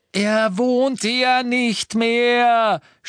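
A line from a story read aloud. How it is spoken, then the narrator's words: Shouted. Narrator (German): schrie sie auf Deutsch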